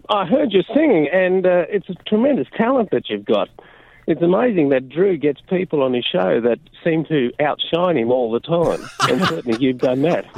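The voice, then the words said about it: Australian accent. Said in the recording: “this is a good accent for Josh and I to hear. It's been a long time since we've been back in Australia.”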